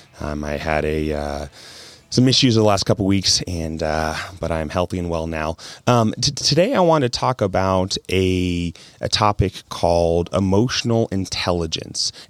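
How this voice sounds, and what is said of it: Raspy voice. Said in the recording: “forgive my voice a little bit. It's a little bit raspy.”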